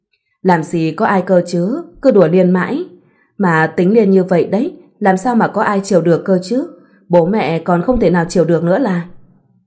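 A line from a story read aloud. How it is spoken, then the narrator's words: Smiling reply. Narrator (Vietnamese): Liên cũng chỉ mỉm cười và nói lại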